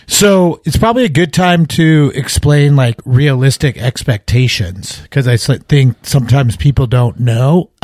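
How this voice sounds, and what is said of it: Hoarse, froggy voice. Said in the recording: “You can tell with my voice. ... I've had a frog in my throat for the last 3 days. ... I'm here with a weird voice.”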